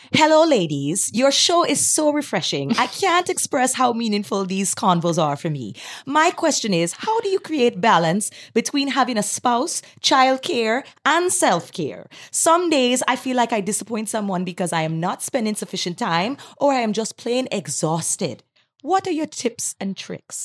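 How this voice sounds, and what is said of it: Put-on general Caribbean accent. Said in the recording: “bring out my island mama... voice... read it with an accent... I don't know truly what an accent from Antigua sounds like, but I'm just going to go into my general Caribbean accent”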